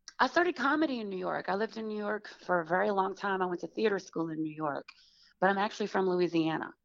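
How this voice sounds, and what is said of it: Southern American accent. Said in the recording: “I recognize your Southern accent”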